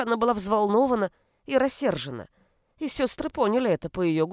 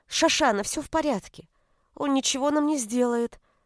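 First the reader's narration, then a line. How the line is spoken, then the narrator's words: Calm. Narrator (Russian): спокойно сказала Перл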